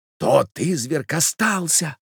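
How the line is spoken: Young man whispering. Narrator (Russian): прошептал молодой человек

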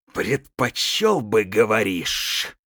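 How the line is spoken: Hissed. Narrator (Russian): прошипел он

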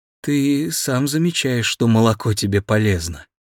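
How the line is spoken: Guilty. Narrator (Russian): Таня сказала виноватым голосом

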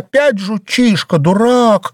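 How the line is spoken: Exclaiming. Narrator (Russian): Ассоль уже воскликнула

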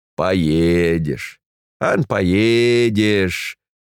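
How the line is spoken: Mocking blizzard whistle. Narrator (Russian): насмешливо засвистала вьюга

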